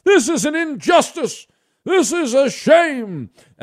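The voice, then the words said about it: Mock outraged ranting voice. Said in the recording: “the people ranting and raving like lunatics ... That's the only impersonation I do”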